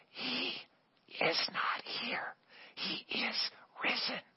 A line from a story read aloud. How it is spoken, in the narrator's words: the director, very subtly from backstage, whispered